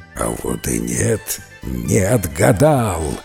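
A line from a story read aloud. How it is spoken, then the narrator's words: Serpent growling. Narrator (Russian): зарычал змей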